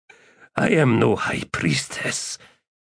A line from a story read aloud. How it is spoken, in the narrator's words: she croaked as water trickled down her face